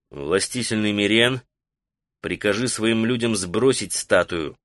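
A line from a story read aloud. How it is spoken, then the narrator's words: Quiet. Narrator (Russian): сказал он негромко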